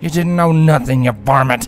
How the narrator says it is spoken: Abadak spat

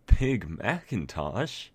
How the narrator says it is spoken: Rarity chuckled aloud

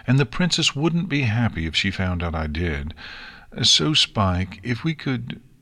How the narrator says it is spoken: Twilight sighed, mentally kicking herself for what she had said in the argument

